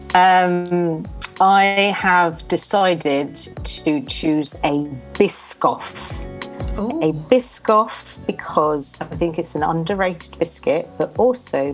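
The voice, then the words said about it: Convincing English accent. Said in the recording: “you wouldn't know this from her amazing English accent, ... is French.”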